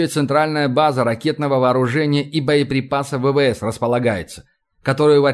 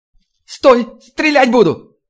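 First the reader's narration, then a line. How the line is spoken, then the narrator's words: Hysterical plaintive shout. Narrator (Russian): голос, которым она была выкрикнута, эти истерично-жалобные интонации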